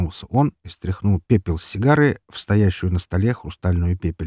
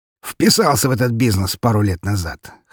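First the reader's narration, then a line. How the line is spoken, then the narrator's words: Snort through clenched cigar. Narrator (Russian): хмыкнул князь, зажав кончик сигары зубами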